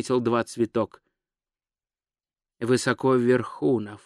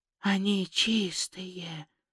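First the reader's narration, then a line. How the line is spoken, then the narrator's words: Whispered. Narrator (Russian): прошептал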